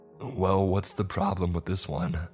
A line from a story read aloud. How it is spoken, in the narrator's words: I asked